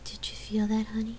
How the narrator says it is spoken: whispered

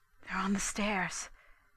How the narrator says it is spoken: Daisy whispered

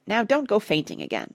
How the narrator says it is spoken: said Parrot testily

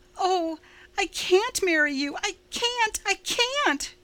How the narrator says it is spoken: she cried wildly

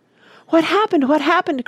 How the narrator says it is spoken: cried Randy

